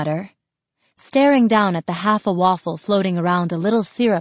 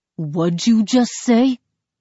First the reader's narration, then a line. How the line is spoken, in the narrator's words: Benny asks, his voice a low boom